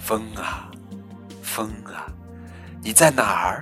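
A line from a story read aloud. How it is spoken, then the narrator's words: Soft whisper. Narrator (Chinese): 我轻声低语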